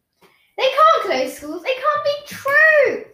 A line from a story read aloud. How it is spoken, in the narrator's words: screeched Ivy